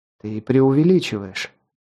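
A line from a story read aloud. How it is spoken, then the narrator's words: Gentle voice. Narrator (Russian): ласково произнесла Касси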